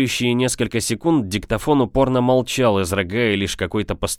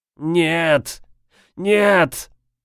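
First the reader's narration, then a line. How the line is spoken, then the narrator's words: Muffled pleading on tape. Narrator (Russian): Новая интонация на пленке звучала глухо и жалобно, будто незнакомец умолял о пощаде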